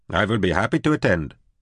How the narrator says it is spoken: Cormac Ranasvari said stiffly

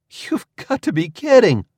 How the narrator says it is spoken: I exclaimed

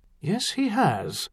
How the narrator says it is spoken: the underpriest agreed far more calmly than he felt

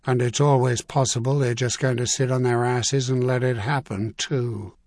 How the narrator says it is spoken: Clintan said flatly

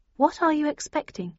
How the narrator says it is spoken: I asked slightly nervously

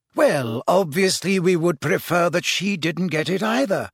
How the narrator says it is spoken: said Dumbledore calmly

